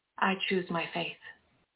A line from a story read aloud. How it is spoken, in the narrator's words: I responded calmly